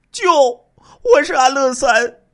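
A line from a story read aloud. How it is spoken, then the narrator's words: Crying out. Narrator (Chinese): 安乐三突然跪倒在地上，哭喊起来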